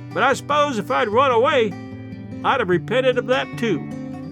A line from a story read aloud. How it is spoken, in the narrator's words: as the train gathered speed and the distance between us widened, she shouted after us